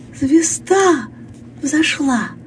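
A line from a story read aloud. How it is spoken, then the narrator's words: Thin high voice. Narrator (Russian): Лили проговорила тоненьким голосом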